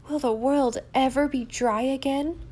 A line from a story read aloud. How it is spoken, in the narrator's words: moaned Di despairingly